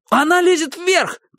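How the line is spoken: Shout. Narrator (Russian): крикнул он

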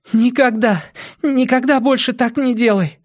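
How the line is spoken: Sobbing. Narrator (Russian): всхлипнула Зеник

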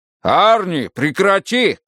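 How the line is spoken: Shouted. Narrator (Russian): крикнул Майкл

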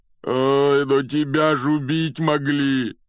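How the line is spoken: Moan. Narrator (Russian): простонал Хагрид

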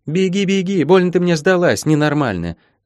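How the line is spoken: Shouting after someone. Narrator (Russian): крикнула вдогонку Молли

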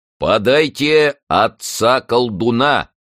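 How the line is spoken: Booming. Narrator (Russian): прогремел главный исповедник

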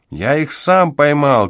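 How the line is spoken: Shout. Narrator (Russian): крикнул он

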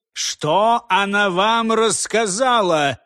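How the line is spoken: Angry old man shouting. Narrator (Russian): сердито закричал старик

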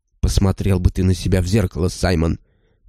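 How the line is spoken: Gloomy speech. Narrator (Russian): мрачно проговорила Кэт

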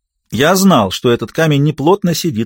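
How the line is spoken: Plain. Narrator (Russian): сказала стая

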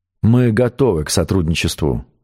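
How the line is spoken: Plain. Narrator (Russian): сказал шеф

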